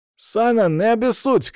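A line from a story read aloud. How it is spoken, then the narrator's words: Shout. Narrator (Russian): крикнул Шама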